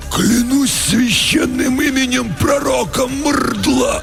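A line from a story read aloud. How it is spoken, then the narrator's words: Hoarse choked voices in unison. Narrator (Russian): В унисон просипели оба десантника перехваченными горлами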